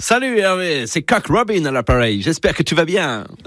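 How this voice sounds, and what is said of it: Put-on English accent in French. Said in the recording (French): “qui m'appelle en imitant Coq Robin ... il m'appelait avec un accent anglais”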